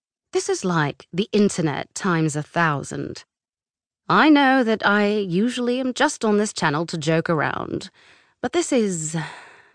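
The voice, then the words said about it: Clear, authoritative British accent. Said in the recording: “he said in a clear, authoritative British accent.”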